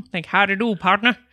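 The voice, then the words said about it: Bad put-on cowboy accent. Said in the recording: “an old cowboy like movie thing. Like spaghetti westerns ... my accent ... It was not Southern ... It was bad”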